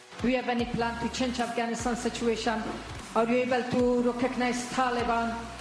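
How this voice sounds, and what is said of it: Heavily accented English, hard to understand. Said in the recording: “I have a little hard time understanding you. Where are you from? ... Afghanistan. ... it's a beautiful voice and a beautiful accent. The only problem is I can't understand a word you're saying.”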